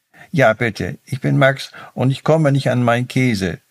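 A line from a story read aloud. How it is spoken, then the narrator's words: Mouse's squeak. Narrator (German): piepste die Maus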